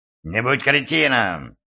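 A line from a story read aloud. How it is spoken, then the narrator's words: Barking snap. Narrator (Russian): рявкнул Силк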